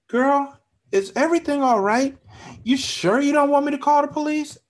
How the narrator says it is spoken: Alice asked as her voice turned high-pitched and filled with nervousness

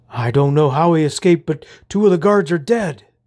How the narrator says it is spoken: the knight exclaimed

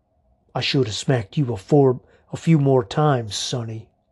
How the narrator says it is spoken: Vernon walked up to me and growled

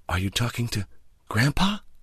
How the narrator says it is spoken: in a hushed voice

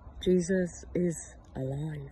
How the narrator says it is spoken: Mary whispered

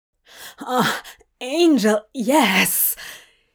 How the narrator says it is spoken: He cried as the steady drumming of the paddle against his flesh marched him closer to climax

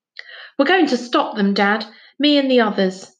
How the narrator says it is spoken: said Finn hastily

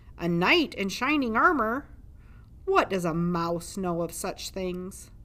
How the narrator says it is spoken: boomed a voice from the darkness

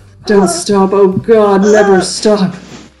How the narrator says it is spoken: I pleaded and begged

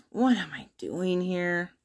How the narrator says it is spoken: Elias grumbles to himself

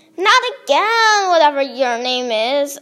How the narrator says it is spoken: I whined

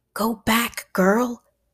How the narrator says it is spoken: hissed Stanley again

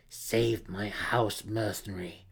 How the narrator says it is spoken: she growled

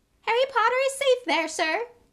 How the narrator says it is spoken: Dobby cried

